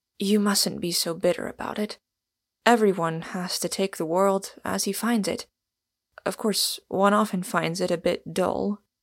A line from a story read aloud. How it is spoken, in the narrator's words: said Arthur Inglewood, rather huskily